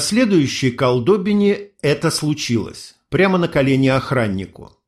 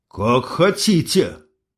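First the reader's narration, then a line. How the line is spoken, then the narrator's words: Forced out. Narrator (Russian): выдавил я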